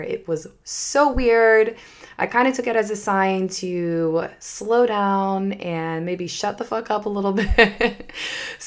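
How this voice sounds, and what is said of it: Slightly funky, strained voice. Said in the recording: “my voice is a little bit funky. I actually totally lost my voice last week”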